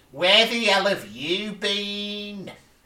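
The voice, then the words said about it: Attempted Scouse accent. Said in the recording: “this is where I will attempt in a Scouse accent, because his mum like goes”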